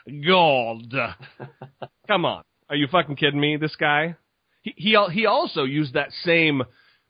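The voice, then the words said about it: Televangelist preacher voice. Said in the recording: “if I can do any accent, it's fucking the televangelist.”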